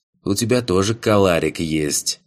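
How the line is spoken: Fox snorting. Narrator (Russian): Хмыкнул лис

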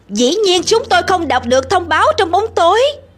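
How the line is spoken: Shouting back. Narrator (Vietnamese): Sam hét trả

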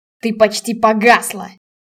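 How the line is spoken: Sudden sharp, general. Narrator (Russian): вдруг резко произнес генерал

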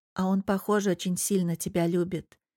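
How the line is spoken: Quiet remark. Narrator (Russian): тихо замечает сестра

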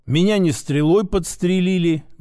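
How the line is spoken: Grumbled. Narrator (Russian): буркнул я

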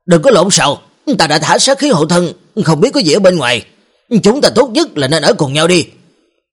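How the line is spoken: Barked command. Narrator (Vietnamese): Hắn quát

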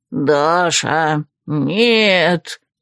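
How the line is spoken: Moan from mirror. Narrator (Russian): простонали из зеркала

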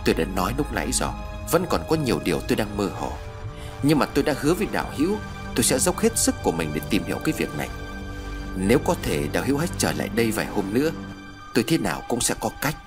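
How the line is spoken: Pensive soft sigh. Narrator (Vietnamese): Trầm ngâm một lúc, vị tu sĩ nhẹ thở dài

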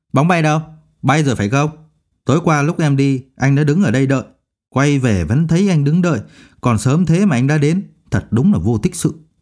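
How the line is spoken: Bitter, nagging voice. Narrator (Vietnamese): Trịnh Vi nói bằng giọng đay nghiến

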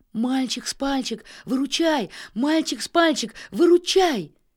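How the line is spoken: Loud desperate shouting. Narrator (Russian): кричала хозяйка дома, громко взывая к своему другу

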